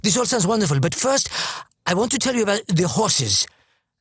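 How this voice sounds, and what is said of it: Bad put-on French accent. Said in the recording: “she was French. So forgive my bad French accent”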